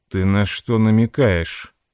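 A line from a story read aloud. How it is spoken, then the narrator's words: Icy interruption. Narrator (Russian): ледяным тоном перебил ее Проколло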